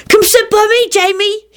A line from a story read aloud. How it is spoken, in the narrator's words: he begged